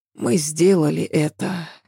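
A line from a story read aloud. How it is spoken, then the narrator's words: Lazy mumble. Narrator (Russian): лениво пробормотала она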